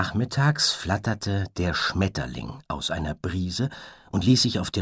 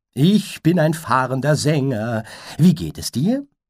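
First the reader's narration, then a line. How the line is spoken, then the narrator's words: Laughing. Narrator (German): Das Einhorn lachte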